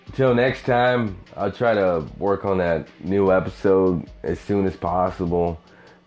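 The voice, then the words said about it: Southern twang. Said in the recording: “I'm that hobo with a southern twang. The man with the million-dollar voice.”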